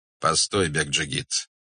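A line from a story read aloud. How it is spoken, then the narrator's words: Calm. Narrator (Russian): сказал он спокойно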